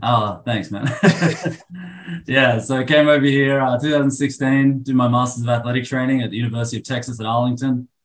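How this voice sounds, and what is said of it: Australian accent. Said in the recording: “I'm originally from Sydney, Australia. ... I can't tell by your accent either.”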